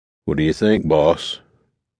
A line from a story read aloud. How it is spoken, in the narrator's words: asked in his deep Louisiana drawl